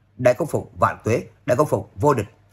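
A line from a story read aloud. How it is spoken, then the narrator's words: Excited crowd cheering loudly. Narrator (Vietnamese): Mọi người lập tức hưng phấn cao giọng hò hét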